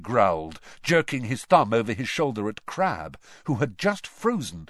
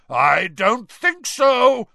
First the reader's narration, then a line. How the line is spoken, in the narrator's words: roared Moody